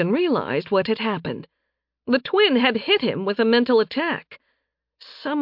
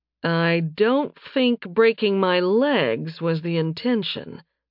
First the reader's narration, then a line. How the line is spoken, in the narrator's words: Nathan drawled